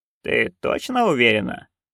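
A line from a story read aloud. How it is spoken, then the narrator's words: Gloomy question. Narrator (Russian): мрачно переспросила матушка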